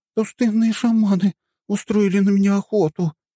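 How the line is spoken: Whimpering. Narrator (Russian): заскулила

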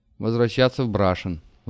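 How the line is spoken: Sigh. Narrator (Russian): вздохнул Влад

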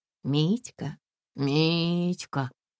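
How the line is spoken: Affectionate drawl. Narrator (Russian): ласково протянула Олеся Ивановна

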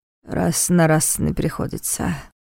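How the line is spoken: Grumbling. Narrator (Russian): проворчал Войтах

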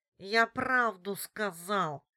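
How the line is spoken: Nasal and desperate. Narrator (Russian): прогнусавил в отчаянии Алексей

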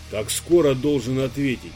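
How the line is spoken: Calm question. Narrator (Russian): Почувствовав, что сегодня проверки не будет, спокойно спросил Иван

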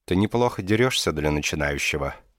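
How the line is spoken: Soft and refined. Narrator (Russian): мягко и изысканно сообщил голос

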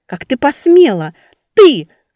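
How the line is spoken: Crying shout. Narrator (Russian): кричала, плача сестра

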